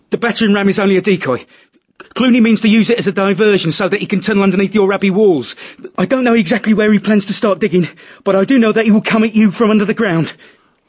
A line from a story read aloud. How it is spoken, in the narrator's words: Suddenly, he blurted out